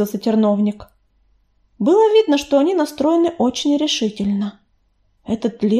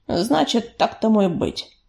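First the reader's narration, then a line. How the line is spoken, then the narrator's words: Deep bass voice. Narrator (Russian): пробасил он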